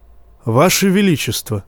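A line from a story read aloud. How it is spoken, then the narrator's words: Calm. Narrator (Russian): спокойно, как всегда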